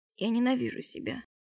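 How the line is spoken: Close whisper. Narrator (Russian): прошептала ему в лицо

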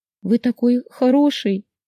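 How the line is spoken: Sobbing. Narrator (Russian): всхлипнула

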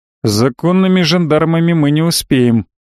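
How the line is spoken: Gloomy confirmation. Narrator (Russian): мрачно подтвердил я

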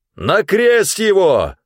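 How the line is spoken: Louder crowd shouting. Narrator (Russian): еще громче закричали они

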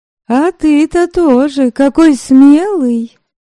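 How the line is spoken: Shouted over the wind. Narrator (Russian): прокричала она, не слишком надеясь, что Верим услышит ее в шуме ветра и ветвей

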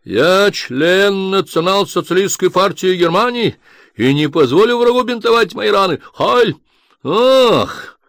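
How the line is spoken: Sudden yell, colonel. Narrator (Russian): Неожиданно оберст заорал

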